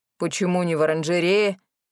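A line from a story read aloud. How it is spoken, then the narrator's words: Stern question. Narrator (Russian): строго спросил он у Марисы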